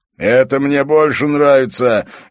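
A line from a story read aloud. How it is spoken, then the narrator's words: Cheerful yell. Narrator (Russian): весело завопил Эрок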